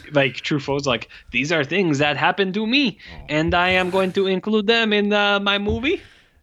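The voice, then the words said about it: Botched French accent. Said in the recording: “You're you're messing up your French accents now. ... am I doing French Canadian?”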